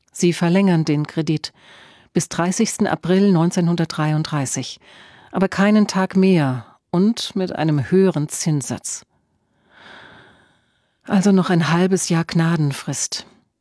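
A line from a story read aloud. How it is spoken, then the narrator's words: Sighing. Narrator (German): Emma seufzte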